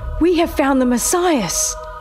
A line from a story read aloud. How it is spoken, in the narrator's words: he cried